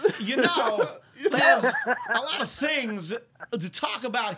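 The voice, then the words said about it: Imitates another person's voice. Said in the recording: “my Christopher Walken impression”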